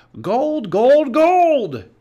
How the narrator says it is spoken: he cried

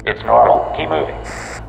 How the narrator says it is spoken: Zelensky said, his voice even more distorted by the static

